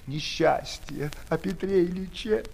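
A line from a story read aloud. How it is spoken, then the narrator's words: Sobbing speech. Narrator (Russian): всхлипнув, проговорила она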